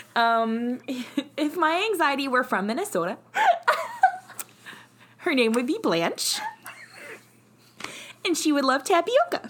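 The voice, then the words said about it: Put-on Minnesota accent. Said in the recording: “Minnesota accent”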